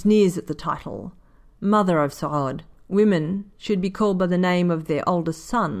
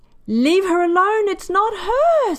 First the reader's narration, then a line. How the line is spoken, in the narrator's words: Saad screams